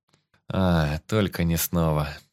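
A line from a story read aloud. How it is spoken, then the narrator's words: Groaning. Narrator (Russian): Застонал я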